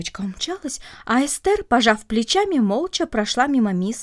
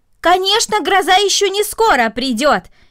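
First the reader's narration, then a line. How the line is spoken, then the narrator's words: Shout. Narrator (Russian): крикнула мисс Мина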